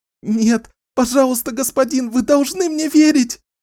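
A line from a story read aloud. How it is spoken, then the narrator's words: Sobbing plea. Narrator (Russian): Клодина начала всхлипывать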